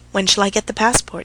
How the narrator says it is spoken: she asked softly

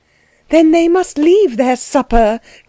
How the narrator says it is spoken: cried Anna

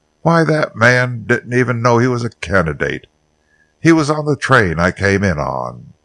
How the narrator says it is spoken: Carrington exclaimed profanely

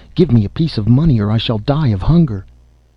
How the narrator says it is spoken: the leper cried

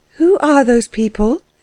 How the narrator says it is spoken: she asked Fritz, in a voice that faltered

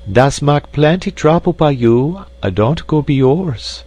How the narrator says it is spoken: sighed the widow, indeed regretting her admirer was not an ordinary man

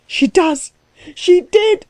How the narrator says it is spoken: screamed Klutz, beside himself

